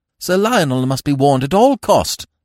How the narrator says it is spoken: I cried

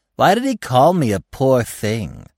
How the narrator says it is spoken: Gobo broke in a discontented tone

